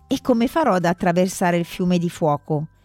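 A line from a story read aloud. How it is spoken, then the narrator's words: Plain. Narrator (Italian): chiese zar Ivan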